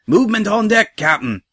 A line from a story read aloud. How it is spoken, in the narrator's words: came a shout from the quarter-deck